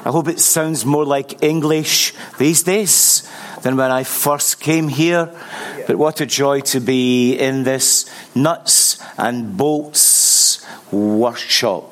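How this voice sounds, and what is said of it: Scottish accent. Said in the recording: “still have a Scottish accent ... the accent is still holding intact”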